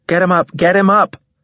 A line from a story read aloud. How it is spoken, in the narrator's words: shouted a bio